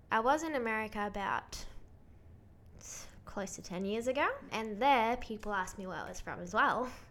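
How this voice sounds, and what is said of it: Ambiguous accent, between American and Australian. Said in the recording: “my accent is confusing ... a lot of the time they think I'm American or from somewhere else ... to Americans, I sound Australian, but to Australians, I sound American”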